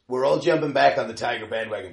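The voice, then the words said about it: Bad put-on American accent. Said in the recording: “Do you like my American accent there? ... how bad your American accent is.”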